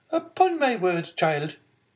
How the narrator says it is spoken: exclaimed the angry Marquise

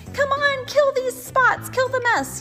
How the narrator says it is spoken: yelled the cats

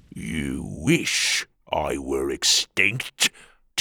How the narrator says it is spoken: Tuga growled

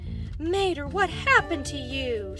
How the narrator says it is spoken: she gasped

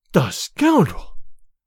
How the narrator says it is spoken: cried Olga

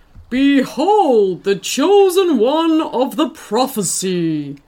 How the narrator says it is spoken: he bellowed

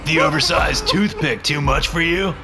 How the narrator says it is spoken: Mike screams as he flies into a rage

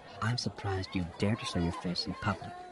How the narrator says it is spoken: Xana whispered

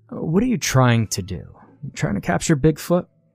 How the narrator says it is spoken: The salesman yawned, and asked

